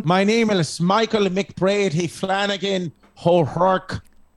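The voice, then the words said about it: Irish accent, done well. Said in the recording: “Is that a good Irish accent? ... It's perfect.”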